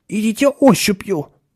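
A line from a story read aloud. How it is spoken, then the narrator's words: Tense advice. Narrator (Russian): напряженным голосом посоветовал Ширин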